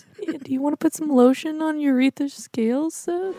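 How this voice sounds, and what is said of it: Sweet, overly nice voice. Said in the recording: “Are we just asking ... to do things in a nice voice?”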